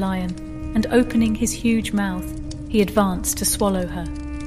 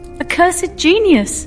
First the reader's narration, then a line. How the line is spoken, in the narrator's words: exclaimed the princess